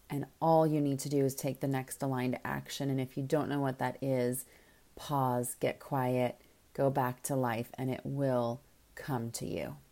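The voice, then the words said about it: Mellow, calm, grounded voice. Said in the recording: “you can probably almost hear in my voice right now, I am feeling very mellow and grounded and just rock solid”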